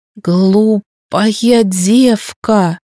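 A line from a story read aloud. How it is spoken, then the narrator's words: Strained wheeze. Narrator (Russian): С трудом прохрипел он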